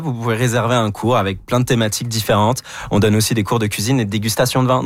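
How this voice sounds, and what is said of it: Non-Québécois French accent. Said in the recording (French): “vous êtes Québécois, malgré l'accent.”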